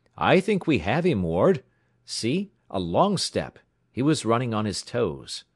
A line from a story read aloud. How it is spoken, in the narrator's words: exclaimed